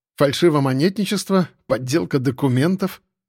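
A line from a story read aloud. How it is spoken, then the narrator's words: Snorting remark. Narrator (Russian): хмыкнул КГБшник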